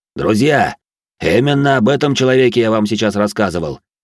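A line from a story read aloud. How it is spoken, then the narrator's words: Cheerful deep booming voice. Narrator (Russian): Веселым голосом пробасил он, обращаясь к солдатам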